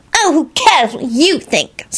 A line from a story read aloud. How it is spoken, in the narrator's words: Solange screeched unrepentantly